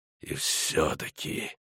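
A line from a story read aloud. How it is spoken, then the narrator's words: Hissed. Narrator (Russian): прошипел Эридин Брэк Глаз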